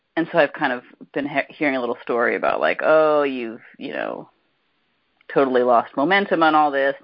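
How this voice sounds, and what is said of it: Sick-sounding voice. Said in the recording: “as you can probably hear in my voice, I've been sick this week”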